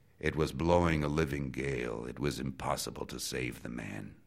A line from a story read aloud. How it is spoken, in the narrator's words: In his voice was a regret as he said